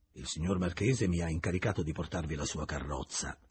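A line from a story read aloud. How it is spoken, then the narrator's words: Plain. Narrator (Italian): gli disse quell'uomo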